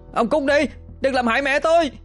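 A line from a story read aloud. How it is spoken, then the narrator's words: Pained scream. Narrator (Vietnamese): Hoàng oằn mình chịu đòn, đau đớn mà hét lên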